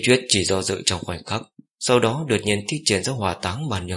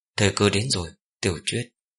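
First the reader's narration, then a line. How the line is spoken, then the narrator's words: Sighing. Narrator (Vietnamese): thở dài một hơi nói với Ninh Tuyết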